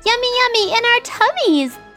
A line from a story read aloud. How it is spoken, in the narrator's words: They squealed from the backseat